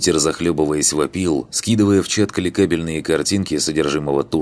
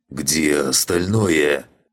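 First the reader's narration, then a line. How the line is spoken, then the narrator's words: Strangled growl. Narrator (Russian): сдавленно прорычал Асмодей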